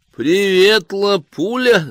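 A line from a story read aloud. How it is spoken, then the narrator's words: Shouted. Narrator (Russian): закричала мадемуазель Мариан Кулаго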